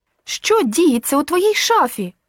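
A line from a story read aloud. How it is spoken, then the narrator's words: Angry outburst. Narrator (Ukrainian): Більше не маючи сили стримувати себе, гнівно вигукнула Мілена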